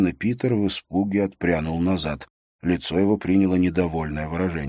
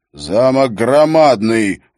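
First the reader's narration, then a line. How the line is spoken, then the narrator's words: Roared. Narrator (Russian): взревел Холд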